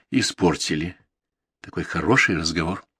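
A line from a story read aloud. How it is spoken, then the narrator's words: Quiet, hurt. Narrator (Russian): произнесла тихо и обиженно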